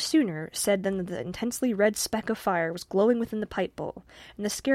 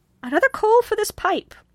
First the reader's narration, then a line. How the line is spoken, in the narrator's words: cried she in her high, sharp tone